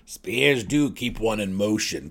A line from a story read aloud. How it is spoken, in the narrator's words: Belwer snarled sarcastically